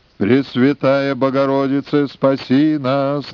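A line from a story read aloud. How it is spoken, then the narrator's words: Drawn-out chanting. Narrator (Russian): нараспев тянул стрелец возле Успенского собора в Кремле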